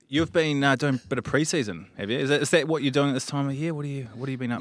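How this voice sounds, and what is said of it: New Zealand accent, sounds Australian. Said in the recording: “sound Australian ... I'm full Kiwi”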